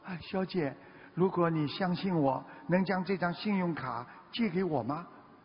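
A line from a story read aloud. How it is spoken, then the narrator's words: Embarrassed, quiet. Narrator (Chinese): 他当时有点尴尬，瓦伦丁看出他有点难为情，小声地说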